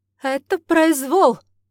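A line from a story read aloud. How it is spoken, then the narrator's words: Roar. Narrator (Russian): взревел Надин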